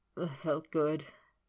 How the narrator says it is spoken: he grunted

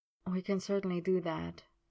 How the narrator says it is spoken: Merlin murmured

